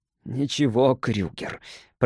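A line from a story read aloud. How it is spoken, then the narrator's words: Hoarse rasp. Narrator (Russian): прохрипел он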